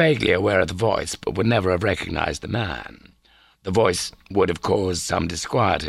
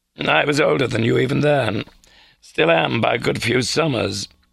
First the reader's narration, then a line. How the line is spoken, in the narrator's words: the Father Superior chuckled